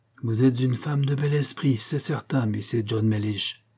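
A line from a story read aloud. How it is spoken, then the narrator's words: Murmur. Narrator (French): murmura-t-il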